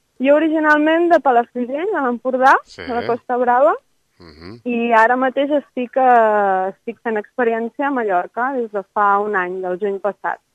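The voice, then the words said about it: Catalan accent between Empordà and Mallorcan. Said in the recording (Catalan): “tens un accent així entre empordanès i mallorquí”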